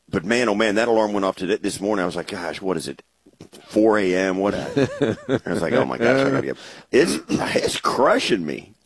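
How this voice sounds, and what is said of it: Hoarse, raspy voice. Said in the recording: “my voice sounds better. It sounds like like I've been smoking cigars the entire trip.”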